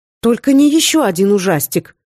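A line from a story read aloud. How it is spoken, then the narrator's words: Exclaiming. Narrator (Russian): воскликнула я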